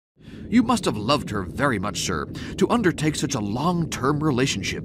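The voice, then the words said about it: Good impression of Crichton. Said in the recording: “that started with a Crichton impression ... It's a good Crichton ... It's a really good Crichton”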